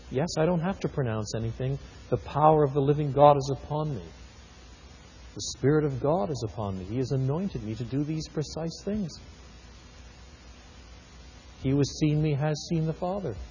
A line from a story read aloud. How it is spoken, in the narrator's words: smiling quietly to himself and saying